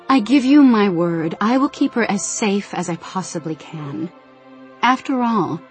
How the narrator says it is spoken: tried to keep her voice light

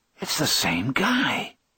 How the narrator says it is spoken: he whispers

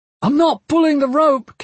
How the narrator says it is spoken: Kip shouted

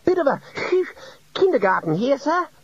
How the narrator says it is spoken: Ponder wheezed

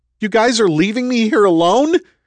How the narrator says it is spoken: Roland shouted

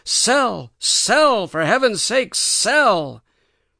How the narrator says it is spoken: Alec's imaginary brokers were shouting frantically, by imaginary long distance

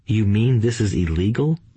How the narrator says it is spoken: asked Mike in a quivering voice

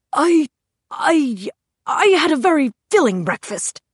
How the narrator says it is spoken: he stammered

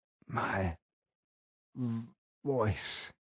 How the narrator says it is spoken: I moaned

